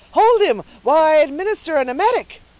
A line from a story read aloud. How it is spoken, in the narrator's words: the surgeon cried eagerly